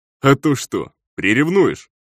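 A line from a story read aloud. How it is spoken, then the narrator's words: Chuckling. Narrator (Russian): хохотнул охранник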